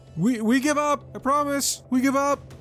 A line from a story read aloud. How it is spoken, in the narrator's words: someone from inside yell